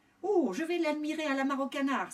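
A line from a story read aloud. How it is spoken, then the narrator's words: Joyful exclaiming. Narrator (French): s'exclama joyeusement Doudou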